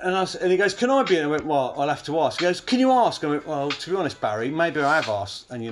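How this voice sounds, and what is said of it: Usual voice. Nothing is said of it.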